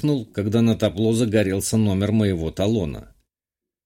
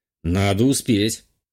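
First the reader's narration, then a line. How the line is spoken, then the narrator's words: Snort. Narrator (Russian): хмыкнул я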